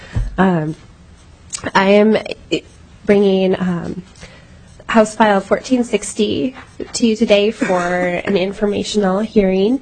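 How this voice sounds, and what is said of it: Noticeably impaired speaking voice. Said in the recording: “Please excuse my voice.”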